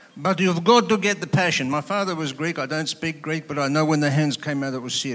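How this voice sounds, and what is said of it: Usual voice. Nothing is said of it.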